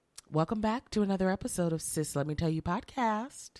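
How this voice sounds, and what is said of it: Hoarse, rough sick voice. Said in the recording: “My voice sound like trash... Oh, God, you do sound really bad... It's bad. I have a sore throat... sick, y'all.”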